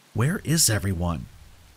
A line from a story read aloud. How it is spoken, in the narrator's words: I whispered furtively